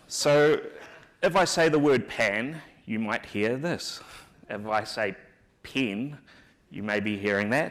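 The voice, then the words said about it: New Zealand accent. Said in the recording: “my accent's hard to understand ... the New Zealand accent”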